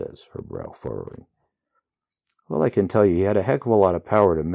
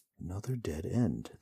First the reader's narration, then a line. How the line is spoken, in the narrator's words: the hero mutters